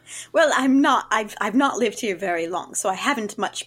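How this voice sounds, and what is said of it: Usual voice. Nothing is said of it.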